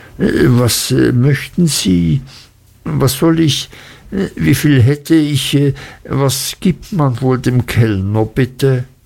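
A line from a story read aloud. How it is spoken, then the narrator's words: Embarrassed stammering. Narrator (German): stammelte ich und wurde rot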